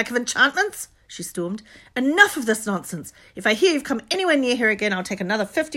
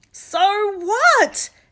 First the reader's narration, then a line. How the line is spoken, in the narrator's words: Harry shouted